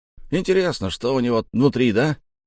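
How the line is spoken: Short man shouting. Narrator (Russian): крикнул коротышка

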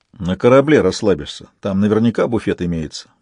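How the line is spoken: Grumbling mutter. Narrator (Russian): буркнул Донцов

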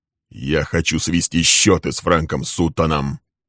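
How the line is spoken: Cold and hard. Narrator (Russian): Холодно и жестко произнес он

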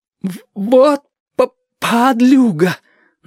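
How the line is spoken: Stammering. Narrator (Russian): начал заикаться Чича

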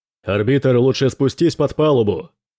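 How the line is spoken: Shouting over storm. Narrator (Russian): перекрикнул Дрейк грохот шторма

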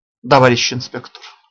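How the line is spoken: Tired but calm. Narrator (Russian): устало, но спокойно говорит Филипп

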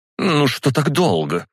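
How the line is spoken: Indignant. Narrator (Russian): возмущенно проговорила она

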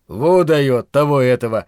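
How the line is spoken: Loud laughter. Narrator (Russian): расхохотался Доб

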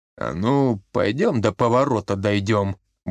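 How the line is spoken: Ominous grumble. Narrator (Russian): буркнул Никитич, тоном, не предвещавшим ничего хорошего

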